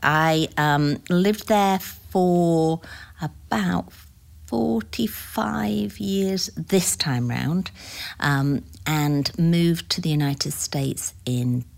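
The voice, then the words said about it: British accent. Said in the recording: “as you can probably tell from my accent, I was not born in the United States. I was born in the United Kingdom”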